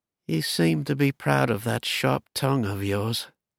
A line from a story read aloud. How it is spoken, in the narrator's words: the Baron said in an even tone